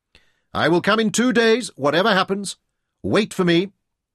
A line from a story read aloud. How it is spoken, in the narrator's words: shouted as they parted